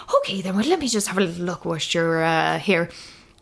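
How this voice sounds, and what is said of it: Poor put-on Irish accent. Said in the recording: “She's a lovely Irish lady... Terrible Irish accent... That was terrible.”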